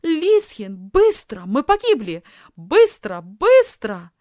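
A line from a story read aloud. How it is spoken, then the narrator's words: Panicked shout. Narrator (Russian): закричала Софи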